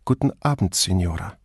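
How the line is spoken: Quiet female voice. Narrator (German): sagte hinter ihr eine leise Frauenstimme

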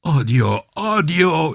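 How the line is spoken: Wailing. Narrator (German): jammerte er

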